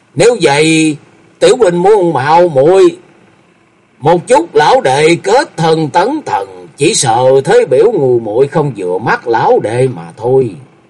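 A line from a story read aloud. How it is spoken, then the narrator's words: Laughing loudly. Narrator (Vietnamese): Vô Lượng Thần Quân cười to rồi nói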